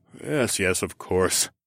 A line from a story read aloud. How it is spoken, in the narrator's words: the king mumbled